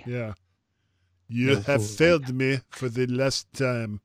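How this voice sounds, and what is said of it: Awful put-on French accent, villain voice. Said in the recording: “A French Darth Vader ... with a bad English accent ... Darth Vader, but with an awful French accent.”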